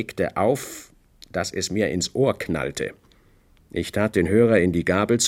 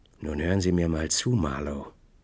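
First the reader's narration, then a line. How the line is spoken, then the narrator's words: Hoarse. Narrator (German): sagte er heiser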